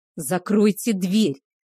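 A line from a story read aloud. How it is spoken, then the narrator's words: Barked. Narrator (Russian): рявкнул Кейхар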